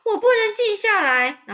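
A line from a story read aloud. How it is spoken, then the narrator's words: Screaming. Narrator (Chinese): 韦伯就尖叫说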